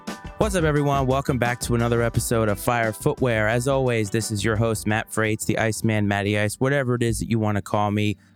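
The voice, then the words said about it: Sick, slightly strained voice. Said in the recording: “You can probably tell that my voice is not 100%. I got sick”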